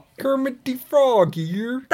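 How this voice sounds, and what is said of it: Kermit the Frog voice impression. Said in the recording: “That was a good impression. ... It's terrible.”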